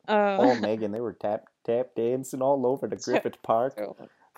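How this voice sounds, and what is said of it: Put-on Wisconsin accent. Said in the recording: “You in Texas for a little too long there? ... I think I was going into my Wisconsin accent.”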